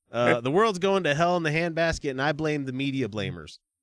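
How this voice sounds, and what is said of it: Put-on Texas accent. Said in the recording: “you go into a Texas accent ... I can hear that Texas coming out”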